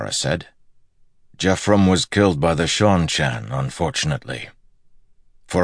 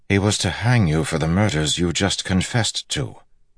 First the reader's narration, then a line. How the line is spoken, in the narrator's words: Galad said calmly